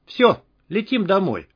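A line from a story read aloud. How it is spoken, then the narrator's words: Calm. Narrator (Russian): спокойно сказала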